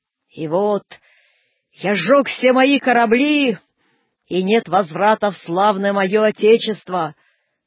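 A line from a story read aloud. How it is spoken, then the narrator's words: Dull, muffled voice. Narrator (Russian): глухо проговорил он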